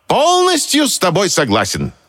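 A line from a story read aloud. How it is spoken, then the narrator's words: Exclaimed. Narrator (Russian): воскликнул мягкий знак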